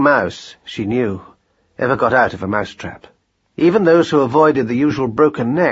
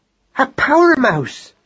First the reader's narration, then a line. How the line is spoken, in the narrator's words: she cried